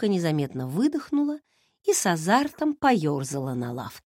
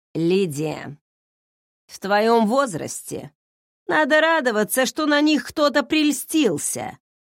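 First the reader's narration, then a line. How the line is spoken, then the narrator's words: Grumbled. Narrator (Russian): проворчала Клементина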